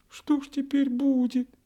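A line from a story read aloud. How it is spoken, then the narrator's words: Sobbing. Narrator (Russian): всхлипнула минутка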